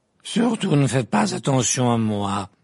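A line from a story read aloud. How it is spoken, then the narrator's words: Irritated stout woman protesting. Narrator (French): protesta la grosse dame d'un ton irrité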